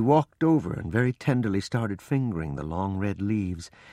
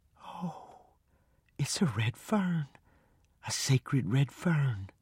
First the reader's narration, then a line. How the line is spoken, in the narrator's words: I heard her say, almost in a whisper